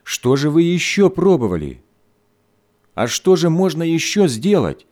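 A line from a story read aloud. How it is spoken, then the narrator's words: Angry mother exclaiming. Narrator (Russian): сердито воскликнула мать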